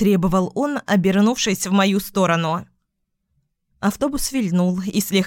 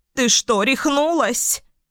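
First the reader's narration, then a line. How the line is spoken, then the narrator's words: Hoarse old woman's shout. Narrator (Russian): закричала хриплым голосом старушка с тростью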